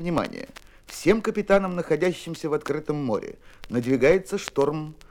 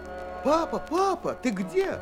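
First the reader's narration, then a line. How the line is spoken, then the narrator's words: Girl's frightened shout. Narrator (Russian): закричала девочка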